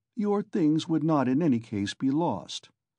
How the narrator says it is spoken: he went on calmly and coldly

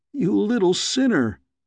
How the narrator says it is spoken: I exclaimed

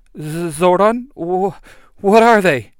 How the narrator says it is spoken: Kim says, her voice trembling

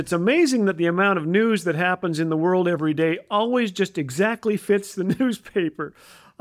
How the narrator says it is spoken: I laugh

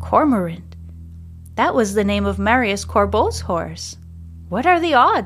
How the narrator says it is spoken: says Lucas in a stunned voice

